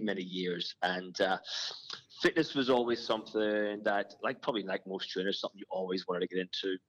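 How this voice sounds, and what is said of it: Irish accent. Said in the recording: “you can probably tell by my my accent. I'm uh, I'm not originally from here. I come from I come from Ireland.”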